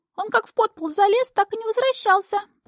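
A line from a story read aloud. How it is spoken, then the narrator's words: Squeaky, muffled from dresser. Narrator (Russian): пропищал Тасилий из комода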